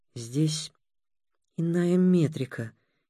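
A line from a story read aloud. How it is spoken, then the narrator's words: Uncertain, hesitant. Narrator (Russian): неуверенно сказал Будимир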